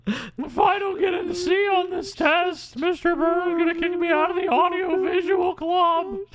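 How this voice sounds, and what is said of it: Whiny imitated voice. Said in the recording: “That is how he talks... It's very whiny.”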